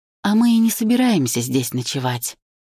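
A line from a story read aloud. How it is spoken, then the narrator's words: Gentle explanation. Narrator (Russian): ласково объясняю я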